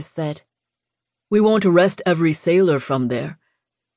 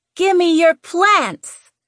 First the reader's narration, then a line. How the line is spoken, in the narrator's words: Lou screeched